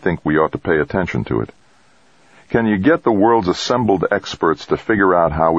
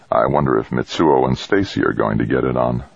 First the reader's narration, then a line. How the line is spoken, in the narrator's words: Jamie muttered